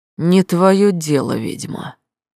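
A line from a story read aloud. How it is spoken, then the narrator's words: Hateful hiss through teeth. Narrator (Russian): с нескрываемой ненавистью процедил полковник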